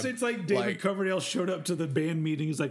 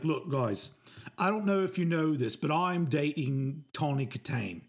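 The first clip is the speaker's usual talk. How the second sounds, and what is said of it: Bad put-on British accent. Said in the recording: “this is the worst you British accent”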